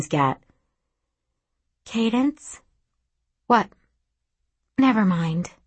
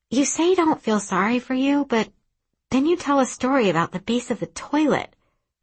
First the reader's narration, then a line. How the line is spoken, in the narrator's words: she blurts